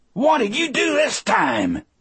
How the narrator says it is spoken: Dean shouted at Percy

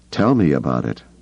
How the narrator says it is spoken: Leia said dryly

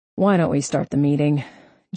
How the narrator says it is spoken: Jeffrey grumbled

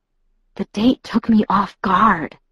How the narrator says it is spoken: I whispered

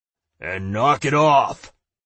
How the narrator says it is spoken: Aten growled at him

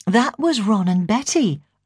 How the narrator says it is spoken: I said brightly

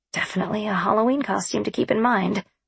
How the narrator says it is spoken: I muttered

